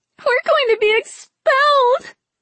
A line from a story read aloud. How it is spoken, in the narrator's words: Venka wailed